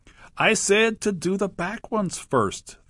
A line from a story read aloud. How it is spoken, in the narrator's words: the crocodile called out